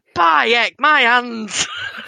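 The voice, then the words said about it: Put-on northern Yorkshire accent. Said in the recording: “if he was northern, he'd come out and he'd be like ... impersonation of Cloud as a northerner, as someone from Yorkshire”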